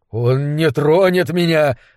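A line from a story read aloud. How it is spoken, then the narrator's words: Choked objection. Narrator (Russian): возразил Комивый Жор сдавленным голосом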